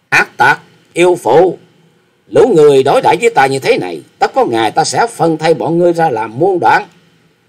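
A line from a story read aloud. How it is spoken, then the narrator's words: Loud scolding. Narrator (Vietnamese): Chàng lớn tiếng mắng rằng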